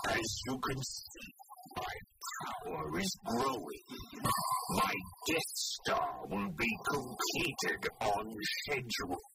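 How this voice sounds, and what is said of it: Darth Vader impression, echoey. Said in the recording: “talking into a rubbish bin ... That's how you do the Darth Vader voice”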